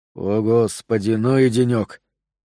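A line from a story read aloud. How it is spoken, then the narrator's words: Mumbling. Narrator (Russian): пробормотал он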